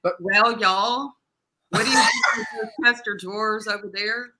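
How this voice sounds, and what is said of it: Arkansas Southern accent. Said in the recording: “if you had to play a girl from Arkansas, can you bring the accent back?”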